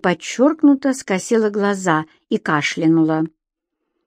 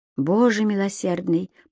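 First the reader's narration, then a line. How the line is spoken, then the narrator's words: Whisper. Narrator (Russian): прошептала Дана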